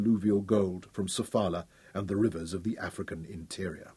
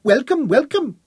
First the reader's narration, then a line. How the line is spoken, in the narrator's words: chirped in quaintly accented English